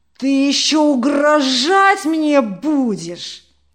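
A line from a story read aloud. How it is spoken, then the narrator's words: Roaring. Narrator (Russian): взревел Тарас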